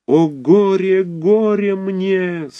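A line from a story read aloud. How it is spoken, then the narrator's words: Moaning. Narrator (Russian): стонал Цирельман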